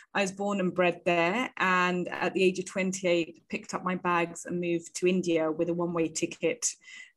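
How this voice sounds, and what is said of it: British English accent. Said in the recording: “as you can hear maybe from my accent, I am from the UK”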